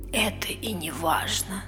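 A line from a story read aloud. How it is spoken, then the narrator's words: Whispered. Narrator (Russian): прошептала Мия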